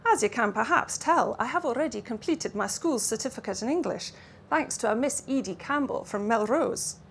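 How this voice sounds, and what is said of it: Mixed Russian and Lowland Scots accent. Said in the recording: “He spoke with an accent that hovered somewhere between Russian and Lowland Scots.”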